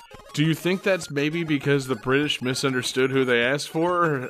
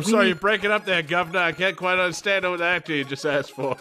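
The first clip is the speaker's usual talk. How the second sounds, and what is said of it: Poor British accent, Boston-sounding. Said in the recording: “your British accent is basically a Boston accent with Cheerio added to it.”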